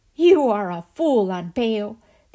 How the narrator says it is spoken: the elder brother shouted

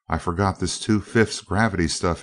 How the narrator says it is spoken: he laughed

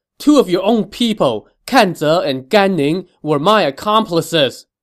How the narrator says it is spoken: he shouted

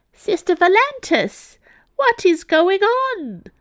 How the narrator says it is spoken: cried Sister Ursa

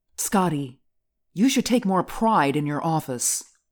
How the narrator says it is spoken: snapped Polly

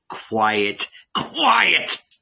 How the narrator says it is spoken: bellowed Paul

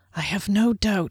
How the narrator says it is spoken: sighed

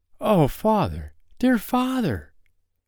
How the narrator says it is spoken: cried poor little Carl

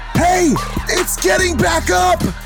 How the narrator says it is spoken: The two Reapers yell out

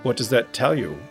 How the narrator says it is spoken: I asked

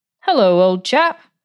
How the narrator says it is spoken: Jim exclaimed

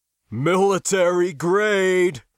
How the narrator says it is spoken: Mickelson chuckled

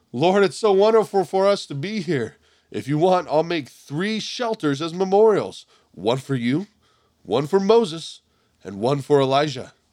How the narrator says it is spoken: Peter exclaimed

